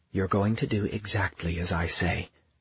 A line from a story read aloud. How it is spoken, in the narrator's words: she said, but it came out like the purr of a demon, the croon of a devil's pet